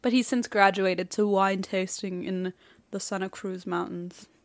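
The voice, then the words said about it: Imitates another person's voice. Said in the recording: “my Archibald impression ... I'm very glad you didn't do the entire thing in that voice ... It hurt my throat a little bit.”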